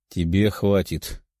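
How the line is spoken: Calm reply. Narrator (Russian): спокойно ответил Тео

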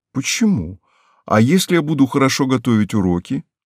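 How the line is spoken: Quiet, reasoned objection. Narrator (Russian): рассудительный Нюся возражал, тихо сияя

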